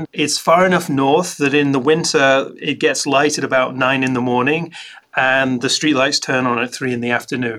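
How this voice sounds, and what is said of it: Scottish accent. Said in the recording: “you probably tell from my accent, I grew up in Scotland.”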